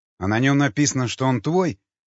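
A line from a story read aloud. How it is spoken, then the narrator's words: Angry retort. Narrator (Russian): зло бросил в ответ Николай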